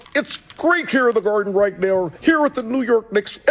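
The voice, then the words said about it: Imitates a sportscaster's voice. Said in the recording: “impersonations of inside the NBA. Ernie, Kenny Smith, Charles Barkley, and Shaq, and he rocked it”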